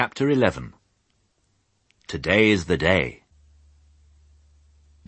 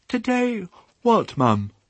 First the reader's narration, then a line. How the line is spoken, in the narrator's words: said Babe sleepily